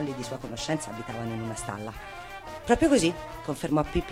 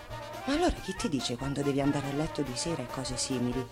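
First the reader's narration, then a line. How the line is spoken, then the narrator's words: Plain question. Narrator (Italian): chiese Annika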